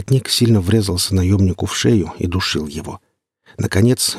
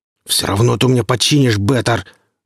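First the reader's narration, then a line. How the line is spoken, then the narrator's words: Growling. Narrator (Russian): рычал над ним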